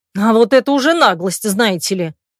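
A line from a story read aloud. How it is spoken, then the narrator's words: Exasperated bark. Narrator (Russian): рявкнула я, потеряв всякое терпение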